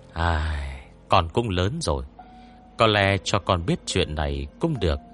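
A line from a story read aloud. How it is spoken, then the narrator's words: Sighing, resigned old woman. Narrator (Vietnamese): bà hai thở dài nói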